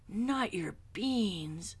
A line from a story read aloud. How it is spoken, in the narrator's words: cried Skipito, outraged